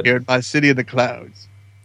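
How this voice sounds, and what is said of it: Impression of Lando character voice. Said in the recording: “Is that your Lando impression”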